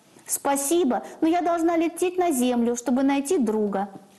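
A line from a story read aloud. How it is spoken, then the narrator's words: Child shouting mid-flight. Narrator (Russian): крикнула малышка уже на лету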